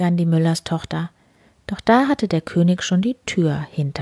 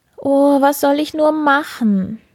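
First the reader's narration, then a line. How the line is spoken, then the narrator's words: Sobbing. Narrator (German): sagte sie und schluchzte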